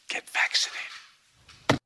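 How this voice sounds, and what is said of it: Creepy whisper, imitates another person's voice. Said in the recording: “creepy whisper ... He always does that creepy whisper. It's so creepy.”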